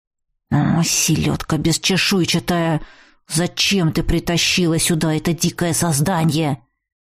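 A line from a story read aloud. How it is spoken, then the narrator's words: Grumbling. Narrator (Russian): заворчал первый голос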